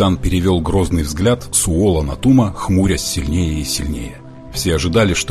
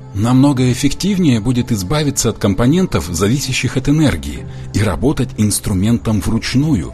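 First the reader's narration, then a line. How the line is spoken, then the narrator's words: Calm. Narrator (Russian): Том говорил спокойно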